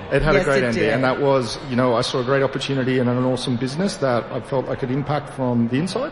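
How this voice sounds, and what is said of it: Australian accent. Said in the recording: “So your accent is from where? ... Australian.”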